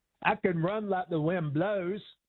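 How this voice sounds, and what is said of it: Forrest Gump character voice impression. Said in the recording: “That's a good Forrest Gump, by the way. ... That's a good Forrest Gump. ... Sounds just like it.”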